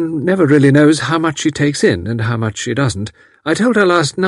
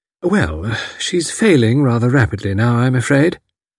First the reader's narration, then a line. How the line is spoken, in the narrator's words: said Miss Packard in a comfortable voice